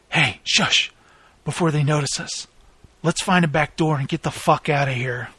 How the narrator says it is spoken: Jeb whispered

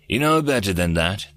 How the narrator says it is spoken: Threedak chuckled

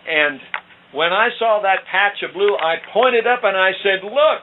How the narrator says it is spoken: I shouted

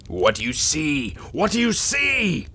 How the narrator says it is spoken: She screamed

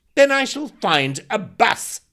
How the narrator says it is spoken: snapped Andrew

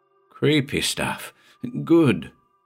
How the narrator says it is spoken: muttered Luther with relish

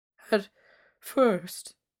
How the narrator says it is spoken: croaked the old lady

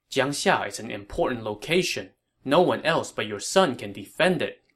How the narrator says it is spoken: Liu Bei said

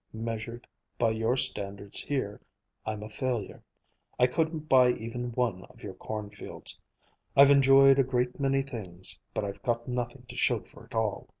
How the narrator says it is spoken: he went on calmly

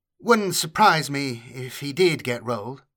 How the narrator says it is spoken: she said

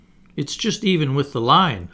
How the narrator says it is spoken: I replied

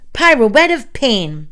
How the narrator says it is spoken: She shouted

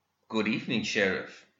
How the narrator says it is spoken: he said

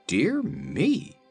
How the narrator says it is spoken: exclaimed Ojo

